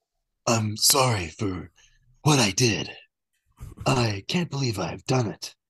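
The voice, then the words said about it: Imitates another person's voice. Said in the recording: “Is that your Alec Baldwin impression?”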